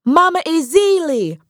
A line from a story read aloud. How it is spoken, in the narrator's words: Pearlie exclaimed between big breaths as she rushed through the lush, matted grass puddles